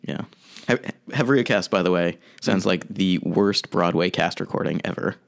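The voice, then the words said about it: Polished radio-announcer voice. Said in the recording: “you have the best radio voice ever ... your radio voice right now is really what's hitting me”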